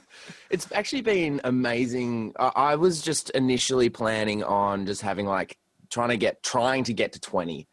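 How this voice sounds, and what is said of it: Australian accent. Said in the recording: “These fucking Australians, man. These fucking Aussies ... The accent. It's the fucking accent”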